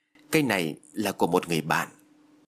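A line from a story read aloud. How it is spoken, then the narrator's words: Terrified stammering. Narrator (Vietnamese): Phước điếng hồn, lắp bắp nói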